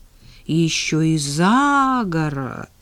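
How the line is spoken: Respectful drawl. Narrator (Russian): уважительно протянула Надя

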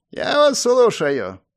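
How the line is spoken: Creaky voice. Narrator (Russian): проскрипел он

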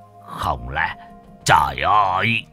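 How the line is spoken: Trembling voice. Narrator (Vietnamese): bá khá chân nhân run rẩy

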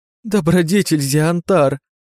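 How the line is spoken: Tearful whining little girls. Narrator (Russian): С раскрасневшимися глазками законючили девчушки жалобным тоном

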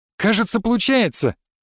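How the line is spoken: Joyful. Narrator (Russian): радостно заявил он

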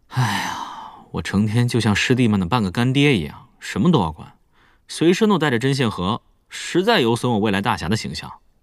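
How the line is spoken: Sighing. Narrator (Chinese): 乐月叹气道

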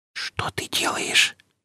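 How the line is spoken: Whisper from lip corner. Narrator (Russian): прошептала краешком губ

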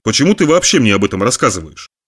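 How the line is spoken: Plain. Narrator (Russian): спросил Брюс

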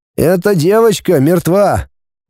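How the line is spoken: Sad repetition. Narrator (Russian): печально повторил врач

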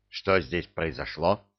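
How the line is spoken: Stern young man. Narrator (Russian): строго спросил юноша

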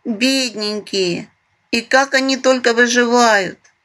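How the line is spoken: Sympathetic sigh, small person. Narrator (Russian): сочувственно вздохнул маленький помор

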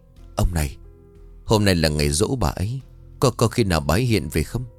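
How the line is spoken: Trembling, fearful. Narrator (Vietnamese): bà liền run rẩy

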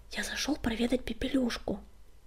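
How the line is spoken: Whispered. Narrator (Russian): прошептал он

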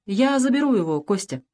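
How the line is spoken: Calm statement. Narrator (Russian): спокойно заявил Дронов

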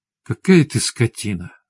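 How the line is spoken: Breathed out. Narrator (Russian): выдохнула Светлана

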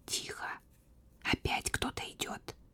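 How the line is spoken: Whispered. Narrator (Russian): пока Злата не шепнула

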